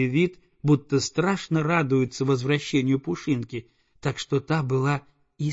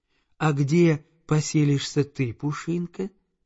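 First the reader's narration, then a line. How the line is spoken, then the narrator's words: Plain question, several voices. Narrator (Russian): спросили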